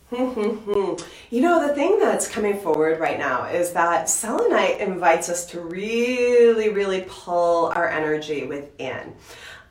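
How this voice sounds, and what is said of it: Voice sounding like a cold. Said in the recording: “You can tell I've got a little bit of a cold going on.”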